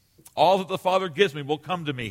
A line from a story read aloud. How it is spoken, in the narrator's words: he said